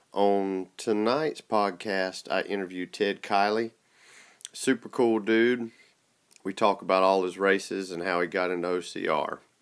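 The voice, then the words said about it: Rural Southern redneck accent. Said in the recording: “my redneck accent”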